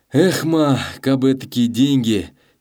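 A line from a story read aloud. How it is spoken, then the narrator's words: Dejected sigh. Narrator (Russian): И он угнетенно вздохнул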